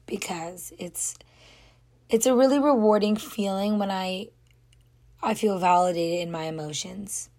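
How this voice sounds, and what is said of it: Hoarse, quiet, strained voice. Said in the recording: “my voice is gone again... I'm not even talking that loud right now because my voice is just gone... my voice just cracked”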